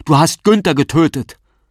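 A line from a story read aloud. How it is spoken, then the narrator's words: Man shouting. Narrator (German): Der Mann schreit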